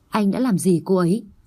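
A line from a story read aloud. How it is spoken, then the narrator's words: Cold. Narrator (Vietnamese): Anh ta lạnh lùng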